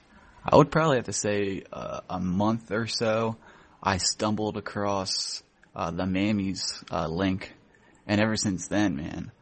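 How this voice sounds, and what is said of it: Philadelphia accent. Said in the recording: “you sound like you're from the mid or southern states ... You have a bit of an accent there ... Philly accent. It's probably a Philly accent.”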